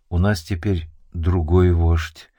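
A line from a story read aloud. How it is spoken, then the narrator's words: Muffled, hollow answer. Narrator (Russian): Гуннар глухо ответил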